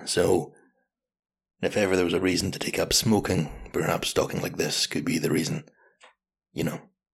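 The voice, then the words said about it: Deep, husky voice from a cold. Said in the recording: “my voice sounds cooler, maybe more suited to podcasts ... I've got a cold at the moment, but it has given me this excellent radio voice”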